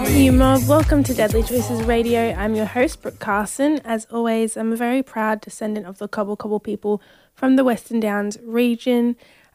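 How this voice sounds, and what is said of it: Slightly croaky voice. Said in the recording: “my voice is a little bit croaky”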